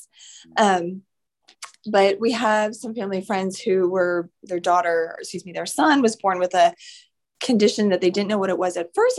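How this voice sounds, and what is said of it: Sick, rough-sounding voice. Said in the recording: “I sound terrible. I actually have COVID right now, so forgive my voice.”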